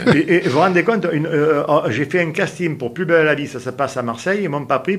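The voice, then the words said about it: Southern French accent. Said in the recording (French): “moi j'ai l'accent méridional ... je suis pratiquement le seul à avoir l'accent méridional ... Avez trop d'accent.”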